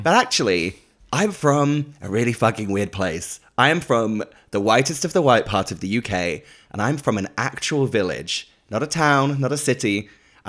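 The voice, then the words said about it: Faux American mixed with London accent. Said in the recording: “this faux American accent, you know, mixed with, you know, gritty London”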